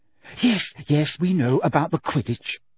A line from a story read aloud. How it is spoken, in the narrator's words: said Hermione in a tense voice